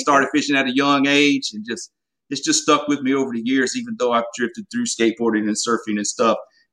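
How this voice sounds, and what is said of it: Mild Southern US accent. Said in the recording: “I got a little bit of an accent too sometimes ... you sound like you're from Louisiana too ... a good Southern accent, but it's definitely not a Texas accent. But I got a little Southern draw here and there.”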